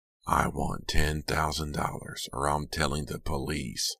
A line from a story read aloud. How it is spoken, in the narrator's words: the voice rasped